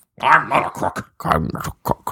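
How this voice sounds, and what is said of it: Imitates another person's voice. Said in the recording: “We're just going and doing impressions now? ... Just old impressions.”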